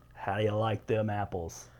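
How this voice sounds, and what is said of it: Attempted Boston accent. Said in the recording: “I can't do a Boston accent.”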